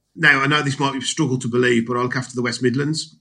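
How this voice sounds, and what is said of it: Regional accent with a twang. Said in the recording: “my accent ... There's a twang in there ... there's a certain twang”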